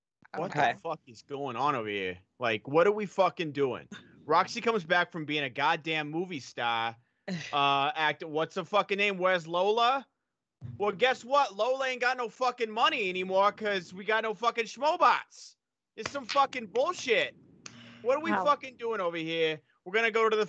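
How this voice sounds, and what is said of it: Put-on Boston accent, scolding. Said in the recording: “In your best Boston accent, reprimand the people”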